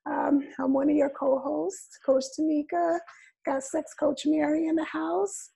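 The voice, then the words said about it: Sick, impaired voice. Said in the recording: “excuse my voice. As you can see, I got something going on here ... I was sick”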